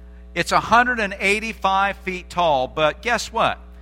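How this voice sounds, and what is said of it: Usual voice. Nothing is said of it.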